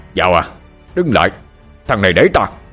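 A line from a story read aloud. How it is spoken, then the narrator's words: Shout. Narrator (Vietnamese): Minh Tiến hét lên một tiếng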